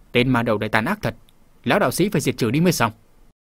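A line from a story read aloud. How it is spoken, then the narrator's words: Old priest's resentful muttering. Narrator (Vietnamese): lão đạo sĩ xưa này hay nói bông đùa quen rồi, trước tình cảnh này không sao thản nhiên được, liền hậm hực lẩm bẩm tự nói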